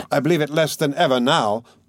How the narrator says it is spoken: Zamatov cried hastily

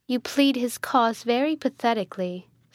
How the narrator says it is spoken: said Isabella

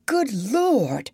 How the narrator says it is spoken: cried Bumpo

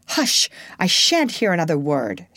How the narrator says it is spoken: she exclaimed

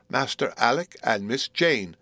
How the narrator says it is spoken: cried one of the nurses

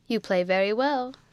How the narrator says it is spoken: said Crawley, laughing

